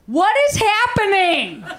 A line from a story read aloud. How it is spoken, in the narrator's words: the person that they were proposing to just started loudly saying